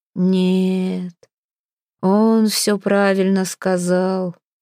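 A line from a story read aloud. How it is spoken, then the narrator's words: Muffled, turned away. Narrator (Russian): глухо выговорил Хродмар, не оборачиваясь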